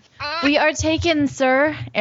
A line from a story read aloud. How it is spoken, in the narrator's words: Arion might have called out